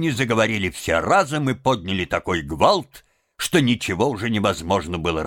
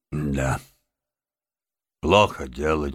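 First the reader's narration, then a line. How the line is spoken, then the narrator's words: Heavy sigh. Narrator (Russian): тяжело вздохнул мистер Крейси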